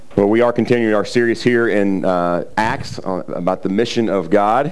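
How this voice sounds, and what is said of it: Slightly raspy voice. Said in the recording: “my voice is going to be a little raspy here ... I am a little raspy”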